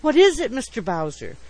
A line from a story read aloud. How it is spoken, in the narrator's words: she exclaimed